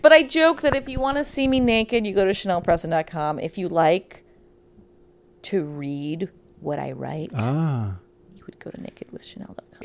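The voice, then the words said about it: Slight Midwest American accent. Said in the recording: “Why the Midwest accent? ... I pick up a little.”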